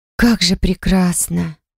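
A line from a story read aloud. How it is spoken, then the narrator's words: Admiring breathless exhale. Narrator (Russian): выдохнула я восхищенно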